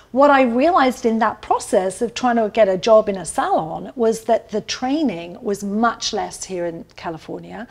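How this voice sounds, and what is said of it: British English accent. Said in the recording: “my superpower of my accent ... London Beauty School”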